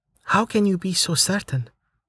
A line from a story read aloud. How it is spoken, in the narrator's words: Amelia asked softly